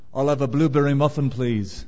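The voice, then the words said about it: Put-on Liverpool British accent. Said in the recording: “I put on a British accent. I put on my Liverpool accent”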